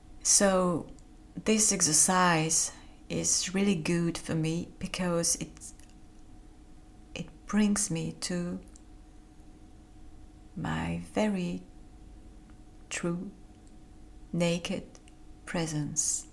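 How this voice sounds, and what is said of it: Non-native English accent. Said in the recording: “I'm not an English native speaker and my accent isn't perfect. I'm struggling with words sometimes.”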